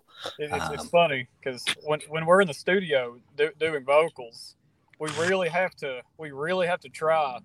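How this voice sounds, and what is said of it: Strong West Virginia southern accent. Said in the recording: “such a strong accent such as mine ... I hear West Virginia in your accent ... the strongest southern accent”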